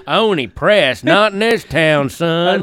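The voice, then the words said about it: Put-on Southern US accent. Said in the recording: “why did I immediately go to a Southern accent”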